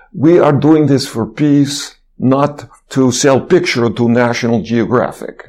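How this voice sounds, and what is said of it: Imitated Russian accent. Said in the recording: “he makes a little speech in his Russian accent”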